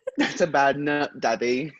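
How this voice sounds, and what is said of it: Well-done put-on accent. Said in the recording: “They're good at that accent.”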